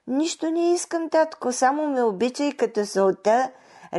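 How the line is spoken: Sweet tender voice. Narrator (Bulgarian): рекла Марушка с такъв мил гласец, с какъвто някога разговаряла с баща си

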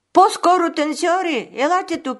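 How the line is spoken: Queen calling out. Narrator (Bulgarian): извикала кралицата

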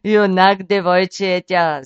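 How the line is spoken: Laughing. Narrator (Bulgarian): засмял се Див

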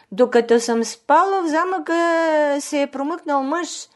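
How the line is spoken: Crying out in distress. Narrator (Bulgarian): кралицата заплакала и започнала да кърши ръце, извикала

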